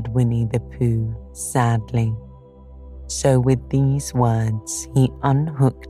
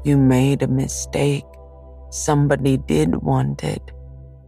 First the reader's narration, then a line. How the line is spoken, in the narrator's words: said Pooh solemnly